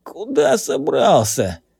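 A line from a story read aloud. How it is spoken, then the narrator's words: Hoarse, automatic. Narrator (Russian): просипел он по инерции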